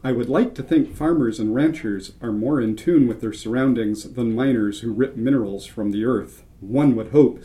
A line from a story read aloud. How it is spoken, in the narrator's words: said Ramon